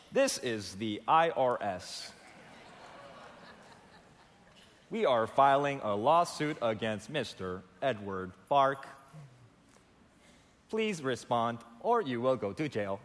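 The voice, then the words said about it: Robotic automated-call voice. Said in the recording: “in that robotic voice.”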